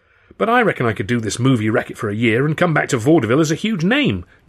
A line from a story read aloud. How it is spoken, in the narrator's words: Charlie said